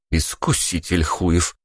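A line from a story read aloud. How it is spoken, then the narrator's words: Muttering. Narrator (Russian): пробормотала Ника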